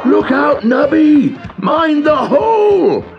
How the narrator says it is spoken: shouted everyone

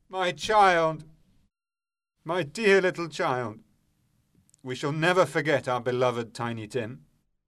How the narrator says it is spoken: he cries out suddenly

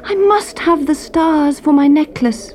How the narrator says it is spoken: she cried

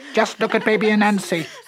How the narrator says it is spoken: Monkey cried

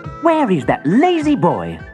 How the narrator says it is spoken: Aladdin's mother yelled

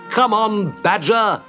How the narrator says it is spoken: shouted Rat

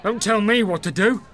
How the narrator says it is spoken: Briggs shouted aggressively

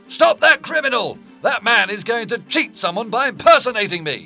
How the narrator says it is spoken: The merchant shouted

